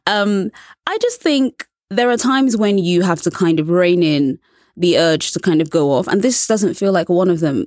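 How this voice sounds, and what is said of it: Charming British accent. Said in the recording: “it helps that I have a British accent, which is pleasing to many American ears... a charming British accent”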